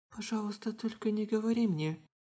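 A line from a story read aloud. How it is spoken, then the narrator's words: Barely audible whisper. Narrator (Russian): Еле слышно прошептала Шихору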